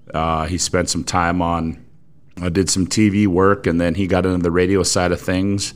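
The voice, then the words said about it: Great radio voice. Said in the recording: “You have a great radio voice ... your excellent radio voice”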